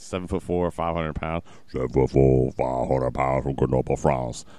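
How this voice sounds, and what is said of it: Imitates another person's voice. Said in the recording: “my Andre the Giant impression ... That was perfect.”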